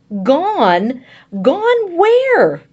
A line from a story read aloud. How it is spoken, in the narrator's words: shrieking now